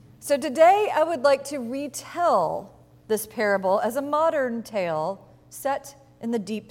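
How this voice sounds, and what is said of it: Usual voice. Nothing is said of it.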